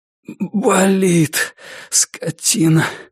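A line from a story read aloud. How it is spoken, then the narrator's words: Pained exhale. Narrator (Russian): выдохнул Норман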